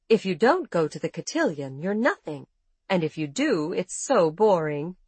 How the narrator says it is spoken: she said later

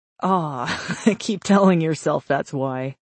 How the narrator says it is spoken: she said through a sarcastic chuckle

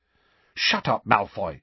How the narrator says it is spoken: said Hermione sharply

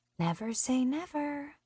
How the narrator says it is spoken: a voice to my left whispers

